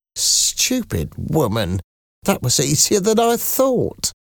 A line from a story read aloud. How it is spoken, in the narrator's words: Madame Thénardier said quietly to her husband